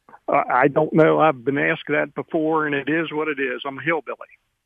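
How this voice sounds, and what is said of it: Southern-sounding American accent. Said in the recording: “Is that a Hagerstown, Maryland accent I detect? ... I love the accent, but I would have sworn you were from somewhere down south.”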